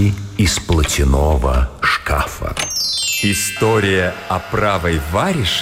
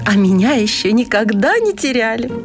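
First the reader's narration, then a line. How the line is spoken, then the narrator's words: Exclaiming glove. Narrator (Russian): воскликнула перчатка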